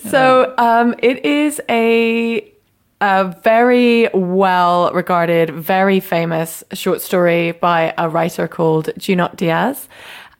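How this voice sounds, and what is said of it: British accent. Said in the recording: “It's because of my British accent. It's almost impossible to understand what I'm saying.”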